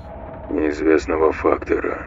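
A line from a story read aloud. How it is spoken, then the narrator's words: Mumbled. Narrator (Russian): пробормотал Марсель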